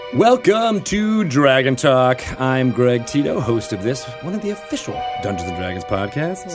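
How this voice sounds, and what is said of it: Melodic radio announcer voice. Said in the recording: “Your voice got really... It did go a little bit melodic... I was totally channeling Shadow Stevens”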